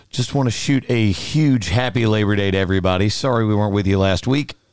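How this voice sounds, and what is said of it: Tired, crispy-sounding voice. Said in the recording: “if you can hear a little bit of crispiness in my voice, it is because my voice is very, very tired”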